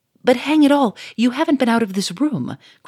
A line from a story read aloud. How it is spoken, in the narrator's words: cried Monsieur Fourmery